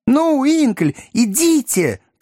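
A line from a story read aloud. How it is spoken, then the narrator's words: Shouting. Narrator (Russian): крикнул мистер Пиквик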